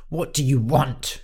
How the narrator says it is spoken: he snapped

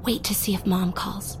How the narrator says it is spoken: Jess whispered

